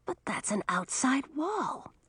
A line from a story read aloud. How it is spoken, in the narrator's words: Audun murmured into Millie's ear